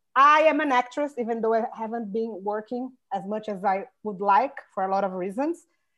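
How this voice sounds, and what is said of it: Brazilian accent. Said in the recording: “I'm Brazilian ... You can hear my accent, the way I talk”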